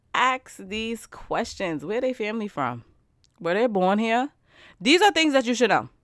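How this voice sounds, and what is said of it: Loud, passionate near-yelling. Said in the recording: “I feel like I'm yelling, but like, because it gets me so passionate”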